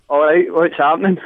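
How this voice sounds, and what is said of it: Casual, unposh phone greeting. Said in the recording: “Just do a quick impersonation. ... you're not that posh at home ... Nowhere near that posh at home”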